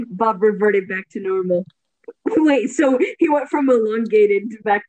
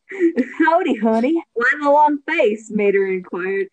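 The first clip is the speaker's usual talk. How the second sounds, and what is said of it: Mater's cowboy accent. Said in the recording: “how do you do the Mater accent? ... You just do it like a cowboy”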